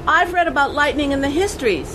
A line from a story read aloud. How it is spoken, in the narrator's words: she shouted back